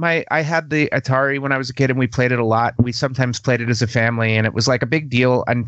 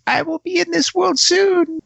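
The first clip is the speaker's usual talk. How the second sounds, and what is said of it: Squeaky high-pitched voice. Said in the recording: “squeaky voice”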